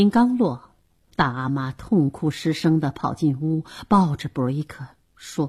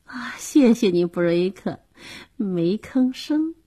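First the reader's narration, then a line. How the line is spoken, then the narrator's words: Coy, laughing. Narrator (Chinese): 玛吉松了口气，娇媚地笑着说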